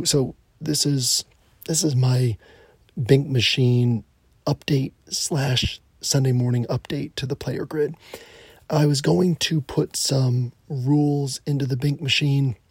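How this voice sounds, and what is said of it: Whispering, hoarse voice. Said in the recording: “I gotta kind of whisper ... laryngitis. I'm supposed to not be talking, so I'll kind of whisper”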